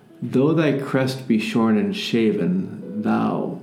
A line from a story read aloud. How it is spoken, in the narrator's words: I said